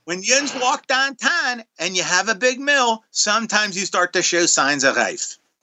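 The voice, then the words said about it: Pittsburgh-Baltimore hybrid accent. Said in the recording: “He had a bunch of a Baltimore accent in there, too... it's a nice little hybrid today... I did that in an accent”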